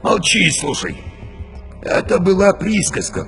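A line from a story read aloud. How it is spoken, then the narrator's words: Wheezing. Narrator (Russian): просипел Борилла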